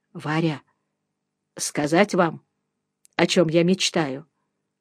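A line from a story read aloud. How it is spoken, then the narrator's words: Quiet mumble. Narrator (Russian): негромко пробормотал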